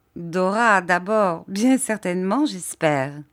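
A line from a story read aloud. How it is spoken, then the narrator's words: Laughing. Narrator (French): dit Agnès en riant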